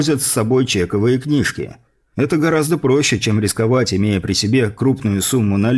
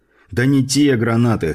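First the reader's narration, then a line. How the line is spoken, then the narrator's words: Dismissive snort. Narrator (Russian): хмыкнув, отмахнулся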